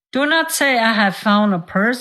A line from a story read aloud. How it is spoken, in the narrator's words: said his friend